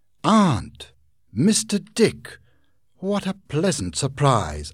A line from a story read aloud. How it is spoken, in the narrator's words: exclaimed